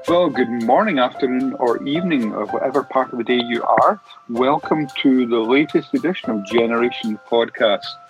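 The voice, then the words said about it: Scottish accent. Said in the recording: “using a Scottish accent”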